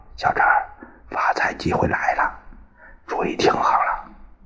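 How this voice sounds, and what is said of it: Quiet whispered line. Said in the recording (Chinese): “附在我耳边小声说”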